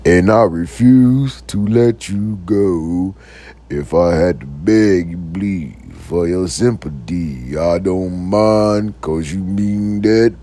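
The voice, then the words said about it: Deep-voiced tenor singing. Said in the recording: “Like a deep voice. ... Them damn tenors was on the stage with them deep voice.”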